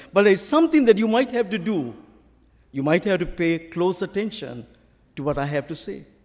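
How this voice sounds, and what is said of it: Sri Lankan accent in English. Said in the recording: “I obviously have to speak English with my own accent ... my own original Sri Lankan accent.”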